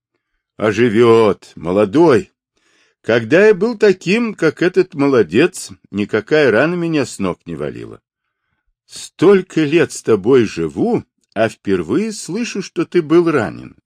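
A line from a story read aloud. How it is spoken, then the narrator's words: Laughing. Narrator (Russian): засмеялась Каймиш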